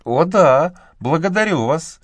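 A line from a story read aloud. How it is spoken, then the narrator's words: Exclaimed. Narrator (Russian): воскликнула Мэгги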